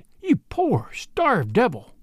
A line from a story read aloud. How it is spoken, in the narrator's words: she cried